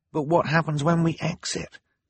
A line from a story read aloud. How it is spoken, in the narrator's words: Klaus whispered back